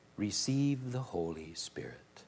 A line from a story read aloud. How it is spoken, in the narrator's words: He breathed on them and said